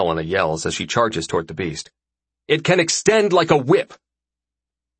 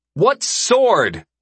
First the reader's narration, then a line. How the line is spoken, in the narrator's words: I yell